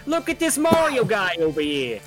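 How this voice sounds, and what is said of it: Angry New Jersey character voice. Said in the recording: “my Bowser is an angry man from New Jersey”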